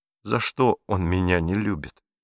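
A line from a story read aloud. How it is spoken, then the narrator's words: Quiet question. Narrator (Russian): тихо спросил Пьеро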